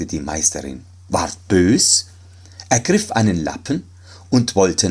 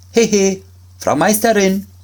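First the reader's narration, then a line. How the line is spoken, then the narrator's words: Call out. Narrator (German): rief er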